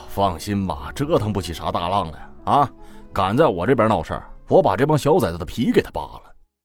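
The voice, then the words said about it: Northeastern Chinese accent. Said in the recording (Chinese): “老板是东北口音”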